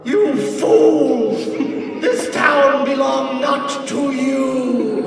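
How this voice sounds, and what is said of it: Loud booming dumb-sounding character voice. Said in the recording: “in my booming voice ... Fennian talks really stupidly, so this is going to sound dumb but loud”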